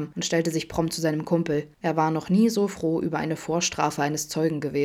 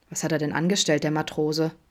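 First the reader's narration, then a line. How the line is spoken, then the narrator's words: Plain. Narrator (German): fragte Vincent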